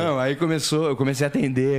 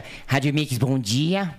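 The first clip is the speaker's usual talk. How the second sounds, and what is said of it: Imitates another person's voice. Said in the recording (Portuguese): “com a voz de Zacarias, fazer a voz do. do. do. do, do, do Faustão”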